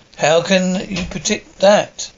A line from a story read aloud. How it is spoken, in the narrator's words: Jack laughs